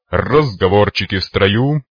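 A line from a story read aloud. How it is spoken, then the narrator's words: Cheerful growl. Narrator (Russian): весело рыкнул майор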